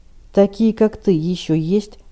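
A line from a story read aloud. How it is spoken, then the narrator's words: Grim question. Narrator (Russian): мрачно спросил Стилет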